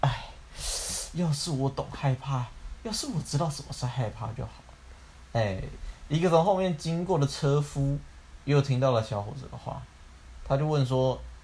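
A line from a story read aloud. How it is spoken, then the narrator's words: Muttering to himself. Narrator (Chinese): 那个小儿子嘀嘀咕咕的开始自言自语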